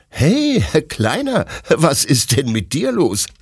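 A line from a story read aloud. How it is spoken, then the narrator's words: Laughing question. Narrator (German): fragt Detlef lachend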